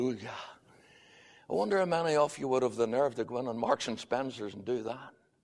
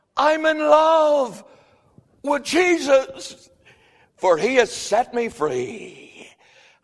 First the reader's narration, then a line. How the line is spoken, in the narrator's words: he shouts back